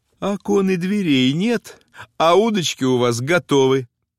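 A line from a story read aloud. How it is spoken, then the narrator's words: Cheerful, laughing mother. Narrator (Russian): Мать смеялась, весело сказала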